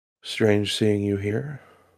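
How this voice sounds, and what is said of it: Calm character voice. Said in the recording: “He'll just speak calmly like this.”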